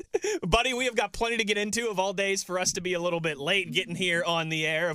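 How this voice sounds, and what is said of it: Loud, yelling delivery. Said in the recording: “I'm screaming and yelling. I turn my microphone down a little bit here.”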